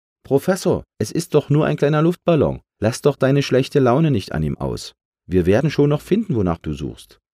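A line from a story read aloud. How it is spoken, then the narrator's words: Laughing call. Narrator (German): Es lachte und rief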